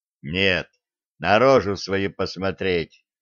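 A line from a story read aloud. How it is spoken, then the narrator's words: Muttered grumble. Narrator (Russian): буркнул Денис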